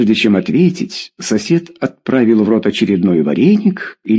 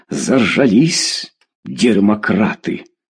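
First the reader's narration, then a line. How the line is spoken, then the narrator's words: Through gritted teeth. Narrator (Russian): процедил Федор Иванович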